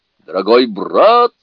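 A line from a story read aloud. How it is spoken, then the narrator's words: Thunderous shout. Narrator (Russian): крикнул он громовым голосом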